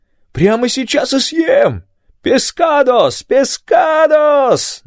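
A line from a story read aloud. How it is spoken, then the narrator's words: Sing-song shouting. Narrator (Russian): нараспев кричал Рафаэль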